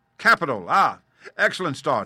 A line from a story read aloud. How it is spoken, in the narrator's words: he cried suddenly